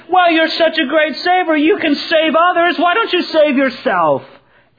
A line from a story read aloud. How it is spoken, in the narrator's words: they laughed at him